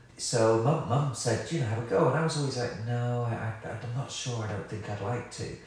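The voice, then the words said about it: Slight West Country accent. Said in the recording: “I'm from Somerset, which you can probably hear in my voice ... a little lazy. bit of a West Country twang.”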